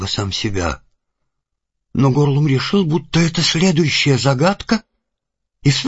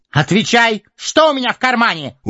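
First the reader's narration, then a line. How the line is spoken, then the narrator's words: Loud, deliberate repetition. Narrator (Russian): уже громко и раздельно повторил он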